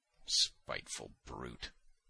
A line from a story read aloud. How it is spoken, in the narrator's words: muttered Simonov